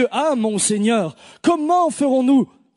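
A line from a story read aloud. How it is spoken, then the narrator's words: Plain. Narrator (French): Il répondit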